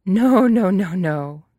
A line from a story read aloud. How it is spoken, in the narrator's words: Mirla laughs